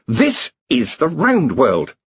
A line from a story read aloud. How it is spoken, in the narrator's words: he snapped